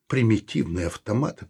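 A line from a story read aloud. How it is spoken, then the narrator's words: Muttering. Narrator (Russian): пробормотал он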